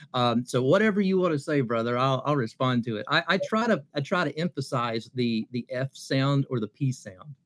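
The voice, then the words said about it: Appalachian Kentucky accent. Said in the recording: “growing up in Appalachia in southeastern Kentucky, I have an accent ... he's just from the hills of Kentucky.”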